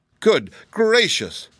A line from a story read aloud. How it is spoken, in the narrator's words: exclaimed the voice of the Tin Woodman